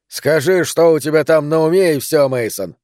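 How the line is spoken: Said rudely. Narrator (Russian): грубо сказал

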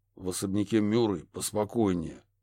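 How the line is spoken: Gruff mutter. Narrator (Russian): буркнул О'Салливан

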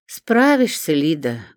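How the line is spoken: Sad. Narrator (Russian): грустно кивнула Римма Марковна

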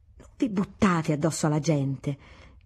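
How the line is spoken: Huffing exclamation. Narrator (Italian): Sbuffava, esclamando

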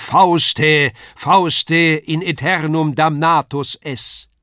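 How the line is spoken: Booming voice from above. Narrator (German): Von oben ruft eine Donnerstimme

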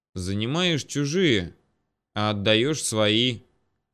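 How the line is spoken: Grumbling. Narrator (Russian): проворчал покатившийся первым Ермолов

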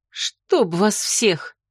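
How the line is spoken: Angry mutter. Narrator (Russian): злобно пробормотала

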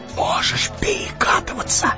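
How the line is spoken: Whisper. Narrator (Russian): шепнул он ему

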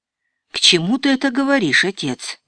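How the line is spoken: Uncertain question. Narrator (Russian): неуверенно спросил Модест

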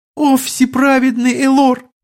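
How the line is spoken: Noblewoman nearly sobbing. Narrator (Russian): почти рыдала баронесса

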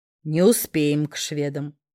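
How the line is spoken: Smirking familiar inner voice. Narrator (Russian): хмыкнул в моем сознании очень знакомый голос

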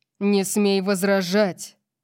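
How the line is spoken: Growling. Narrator (Russian): Прорычал он

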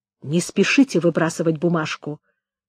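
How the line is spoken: Quick whisper. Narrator (Russian): быстро прошептал посыльный

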